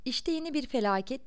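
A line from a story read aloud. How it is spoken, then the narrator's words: Shouted. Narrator (Turkish): diye bağırdı İda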